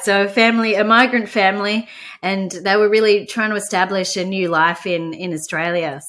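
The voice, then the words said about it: Australian accent. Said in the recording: “I grew up in Melbourne, Australia. You can probably hear from my accent.”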